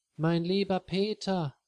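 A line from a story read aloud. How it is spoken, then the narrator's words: Happy call. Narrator (German): ruft Lisa glücklich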